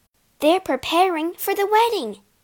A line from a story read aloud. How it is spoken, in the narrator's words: Asta gasped